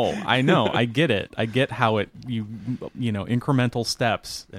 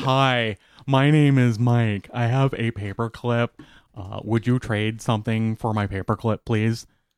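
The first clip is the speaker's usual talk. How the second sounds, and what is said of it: Silly put-on voice. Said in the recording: “stupid voice”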